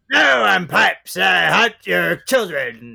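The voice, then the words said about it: Imitates another person's voice. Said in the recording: “That's my Pipes impersonation.”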